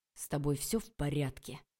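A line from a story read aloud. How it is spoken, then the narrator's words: Through gritted teeth. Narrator (Russian): сквозь зубы процедил Олег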